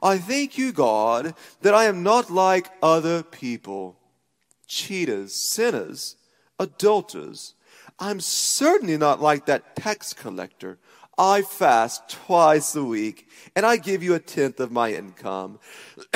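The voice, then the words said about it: Put-on character voice while praying. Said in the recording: “I have to do that voice, right? Because that's just the way I imagine him praying.”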